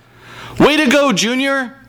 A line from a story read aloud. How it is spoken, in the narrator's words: Junior's mother hollers